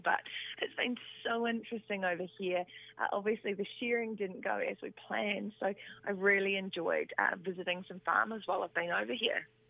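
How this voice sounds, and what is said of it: Strained, worn-out voice. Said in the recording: “as you can tell, I've been doing a lot of talking, so my voice is just awful.”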